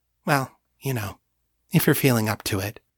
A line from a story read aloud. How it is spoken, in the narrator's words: adding in a quieter voice